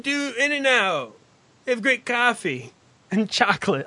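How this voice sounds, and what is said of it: Put-on West Coast accent. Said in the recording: “people from the West goes like ... I'm just trying to use whatever accent I can come up with”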